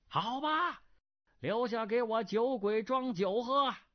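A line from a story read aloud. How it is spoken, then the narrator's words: Voice calling from crowd. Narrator (Chinese): 人丛中一人叫道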